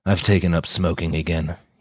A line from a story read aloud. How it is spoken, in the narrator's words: said with a hollow laugh